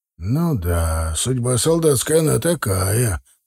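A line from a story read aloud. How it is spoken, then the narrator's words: Deep bass voice. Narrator (Russian): пробасил Михаил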